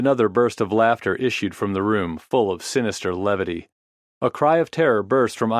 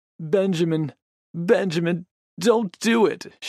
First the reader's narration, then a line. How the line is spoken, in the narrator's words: sobbed